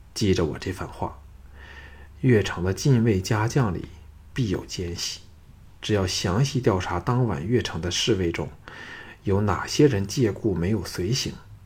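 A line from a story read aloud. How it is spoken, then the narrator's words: Sighing. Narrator (Chinese): 再叹一口气后，说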